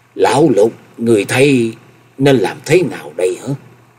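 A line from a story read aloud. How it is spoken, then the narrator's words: Loud trembling voice. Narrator (Vietnamese): Chân Tư Nhân đến giờ mới lấy lại được hồn vía, lớn giọng run run nói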